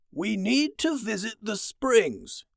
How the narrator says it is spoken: he said in his old man voice

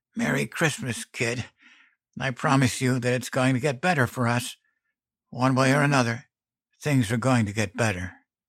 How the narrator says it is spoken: She rasped

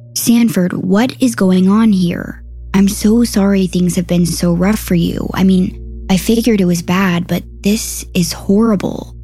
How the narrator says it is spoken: said

